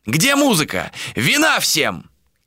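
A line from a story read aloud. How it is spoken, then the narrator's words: Shout. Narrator (Russian): крикнул он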